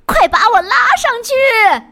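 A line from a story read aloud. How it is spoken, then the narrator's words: Shouting from inside vat. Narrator (Chinese): 缸里有人喊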